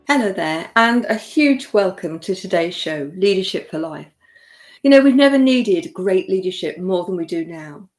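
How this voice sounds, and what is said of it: British accent. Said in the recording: “I'm in the UK, for those of you that don't know, if you can't tell from my accent”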